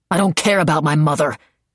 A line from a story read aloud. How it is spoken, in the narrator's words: he snarled